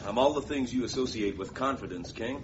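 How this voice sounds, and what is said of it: American quiz-show host accent. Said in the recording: “you sound like Bing Baxter, the American quiz show host”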